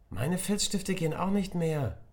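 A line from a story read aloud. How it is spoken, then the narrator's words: Sudden call from afar. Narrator (German): rief da plötzlich Emma aus der letzten Reihe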